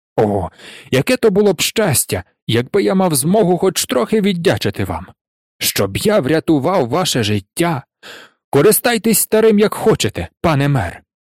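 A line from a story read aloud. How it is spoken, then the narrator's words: Exclaimed. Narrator (Ukrainian): Нарешті він вигукнув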